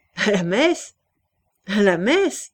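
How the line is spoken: Sneering repetition. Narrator (French): répéta-t-il en ricanant

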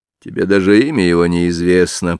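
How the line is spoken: Grumbled. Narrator (Russian): проворчал Джеймс

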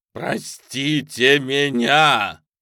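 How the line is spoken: Shouted. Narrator (Russian): крикнул он

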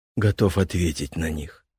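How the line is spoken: Calm reply. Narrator (Russian): спокойно отозвался парень

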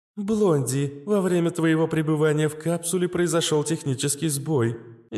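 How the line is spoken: Cheerful chirping. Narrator (Russian): весело прощебетала Астра

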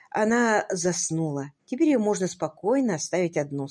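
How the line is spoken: Plain. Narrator (Russian): сказала мисс Силвер

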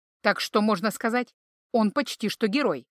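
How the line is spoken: Wry chuckle. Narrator (Russian): хмыкнул Тьелх

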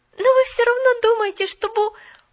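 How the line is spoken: Confused, trailing off. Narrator (Russian): Запуталась Поллианна

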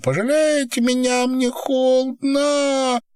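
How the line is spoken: Squeaking, whimpering. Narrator (Russian): пища и хныкая

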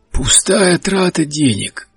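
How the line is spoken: Hoarse. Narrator (Russian): хрипло сказал Генри

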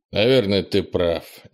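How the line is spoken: Reluctant mutter. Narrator (Russian): нехотя пробормотал Крис

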